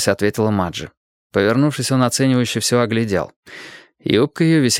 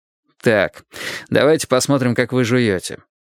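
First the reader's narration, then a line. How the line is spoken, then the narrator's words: Amused snort. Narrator (Russian): хмыкнув, сказал адвокат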